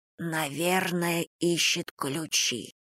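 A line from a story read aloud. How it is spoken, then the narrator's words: Whisper. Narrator (Russian): шепотом сказала Карен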